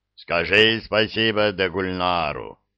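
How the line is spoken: Calming, booming drone. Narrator (Russian): успокаиваясь, прогудел маркиз

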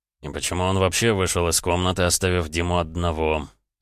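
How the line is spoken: Muttered through clenched teeth. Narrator (Russian): Сквозь зубы процедил Андрей

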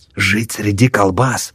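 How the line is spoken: Grimacing whisper. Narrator (Russian): шепнул Хаук, скривившись

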